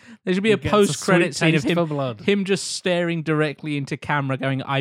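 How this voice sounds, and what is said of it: Usual voice. Nothing is said of it.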